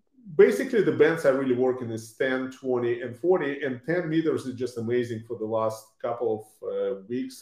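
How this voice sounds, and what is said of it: Lithuanian-accented English. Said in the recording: “judging by your accent, I would say you're from over in Europe originally too ... I was born in Lithuania ... my accent I cannot get rid of”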